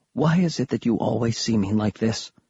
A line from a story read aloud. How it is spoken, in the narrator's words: she asked quietly